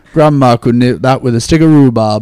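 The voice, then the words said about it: Put-on Northern Yorkshire accent, Jon Snow. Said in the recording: “If I have to do a Northern... so it's a Jon Snow accent... That's much better than Ben. Well done. A true Yorkshireman... That's pretty good.”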